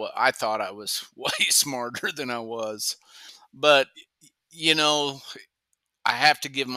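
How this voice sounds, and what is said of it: Usual voice. Nothing is said of it.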